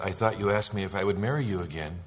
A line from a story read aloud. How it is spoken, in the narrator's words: chuckled and said